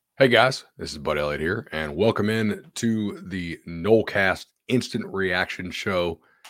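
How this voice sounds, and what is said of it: Strained, partly lost voice. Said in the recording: “my voice is kind of jacked ... I don't want to lose my voice again. I almost have it back, not fully”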